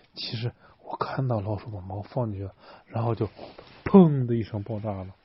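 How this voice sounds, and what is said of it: Whispered, quiet voice. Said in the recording (Chinese): “小声，贝里奥小声跟他说”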